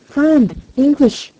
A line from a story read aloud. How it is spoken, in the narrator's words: shouted